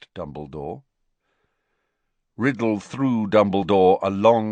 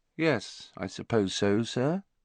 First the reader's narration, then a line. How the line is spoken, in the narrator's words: he said finally, in an expressionless voice